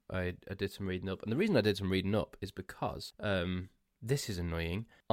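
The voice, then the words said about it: Strained, fading tired voice. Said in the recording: “I'm losing my voice ... supposed to be good for the throat”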